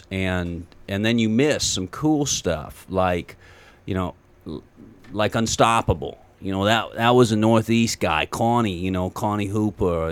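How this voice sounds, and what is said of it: Slow rural Western New York-style accent. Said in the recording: “I'm from Western New York, and your accent is very close to what we've got going on. And we're not really Southern. We're just redneck ... It's a redneck accent ... It's real slow”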